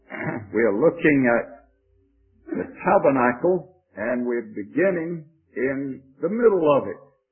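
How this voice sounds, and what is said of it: Georgia Southern US accent. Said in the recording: “my Georgia accent”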